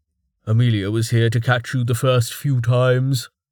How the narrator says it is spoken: Jameis said flatly

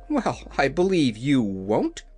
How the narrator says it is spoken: exclaimed Dorothy

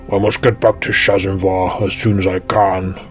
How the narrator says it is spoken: grumbled Narvi

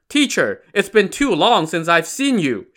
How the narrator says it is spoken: Shi Jin called out from the crowd

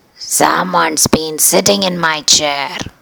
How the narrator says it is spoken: growled the papa bear

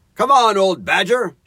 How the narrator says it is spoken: shouted the rat

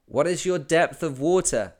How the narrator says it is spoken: I asked

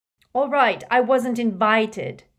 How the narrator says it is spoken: he said angrily

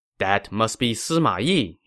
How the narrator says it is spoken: he said

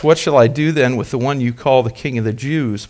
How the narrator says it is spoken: Pilate asked them

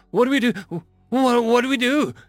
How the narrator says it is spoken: stammered the crew member

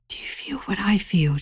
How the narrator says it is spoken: whispered

